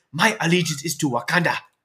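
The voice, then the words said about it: Put-on fictional African accent. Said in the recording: “I'm doing a Black Panther accent... I'm doing a Wakandan accent.”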